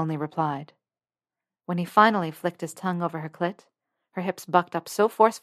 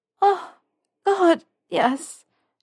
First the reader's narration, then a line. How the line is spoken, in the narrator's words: she panted